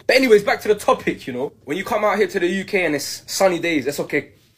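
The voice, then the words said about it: British accent. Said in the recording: “this guy is British, so he has a British accent, but he's also a Latino.”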